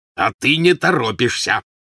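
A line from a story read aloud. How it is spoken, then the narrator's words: Growling man. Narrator (Russian): прорычал Вернон Дурсль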